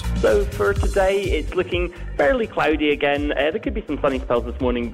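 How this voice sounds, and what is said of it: Speaks with a distinctive accent. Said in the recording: “his wonderful accent”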